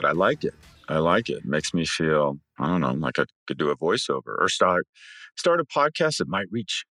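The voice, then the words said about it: Deeper voice than usual. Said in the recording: “My voice is deeper. I don't know if it's the testosterone or the bourbon I drank last night”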